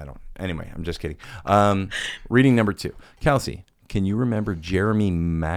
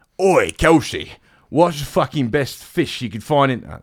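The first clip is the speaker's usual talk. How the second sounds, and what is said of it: Imitates another person's accent. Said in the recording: “I will do it in your father's accent.”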